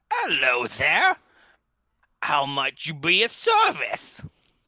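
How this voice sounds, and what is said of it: Strange put-on accent. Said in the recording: “Strange accent there”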